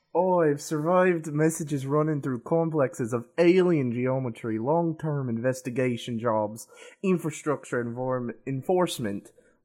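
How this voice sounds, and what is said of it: Minnesotan-Scottish-Russian hybrid put-on accent. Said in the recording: “That Minnesotan Scottish Russian accent hybrid is it's really bad at saying words fast”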